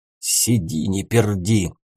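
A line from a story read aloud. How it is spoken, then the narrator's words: Vicious hiss. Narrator (Russian): Злобно прошипел второй голос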